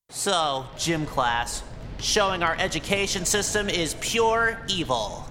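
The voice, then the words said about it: Cartoonish, zany voice. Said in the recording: “talk like a cartoon ... this general, ha-ha, I'm random cartoon channel talk”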